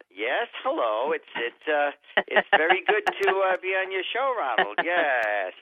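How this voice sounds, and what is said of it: Imitates another person's voice. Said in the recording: “I can do a Keith impression”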